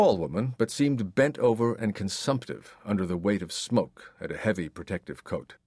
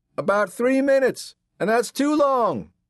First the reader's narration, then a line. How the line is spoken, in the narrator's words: Marge hollered